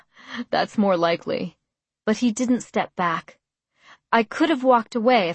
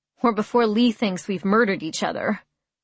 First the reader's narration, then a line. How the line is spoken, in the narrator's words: Noah chuckled